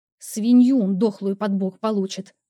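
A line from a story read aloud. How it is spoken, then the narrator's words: Seething, through clenched teeth. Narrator (Russian): процедила, кипя от такого сильного возмущения, что готова была взорваться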